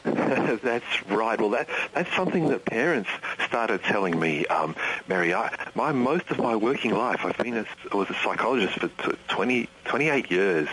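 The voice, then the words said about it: Australian accent. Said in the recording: “I just love his accent. And he is in Tasmania, Australia”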